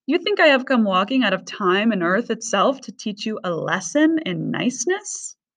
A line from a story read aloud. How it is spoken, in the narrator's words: It laughed louder and louder again until the ground was shaking